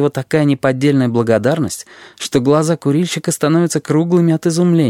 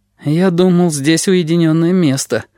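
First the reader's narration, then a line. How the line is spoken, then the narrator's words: Smoker's dejected voice. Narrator (Russian): говорит курильщик уныло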